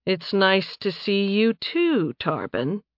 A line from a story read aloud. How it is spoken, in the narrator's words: Nathan said dryly